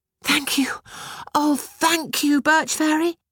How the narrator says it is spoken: Betushka cried

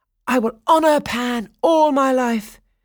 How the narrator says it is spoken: Daphnis exclaimed

